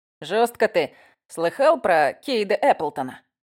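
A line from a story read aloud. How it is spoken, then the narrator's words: Plain question. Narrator (Russian): спросил Макс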